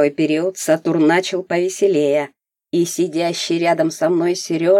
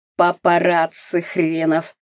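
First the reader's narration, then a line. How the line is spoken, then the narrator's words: Grumbled. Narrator (Russian): Климов проворчал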